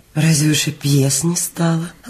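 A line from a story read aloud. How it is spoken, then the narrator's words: Gentle reproachful question. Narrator (Russian): ласково укоризненно спросила Анастасия Ивановна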